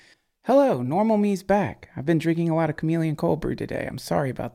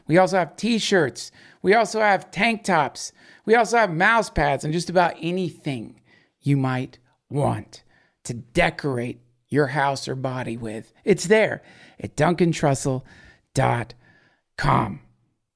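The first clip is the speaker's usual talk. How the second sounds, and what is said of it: Full-on salesman pitch voice. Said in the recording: “Why am I talking like this all of a sudden?... I went in a full-on sales dialect.”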